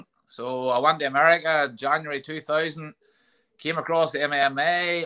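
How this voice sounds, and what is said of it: Northern Irish Ballymena accent. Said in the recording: “If you don't know from the accent, from Ballymena”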